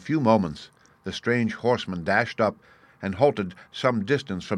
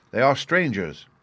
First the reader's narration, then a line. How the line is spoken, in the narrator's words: answered the watchman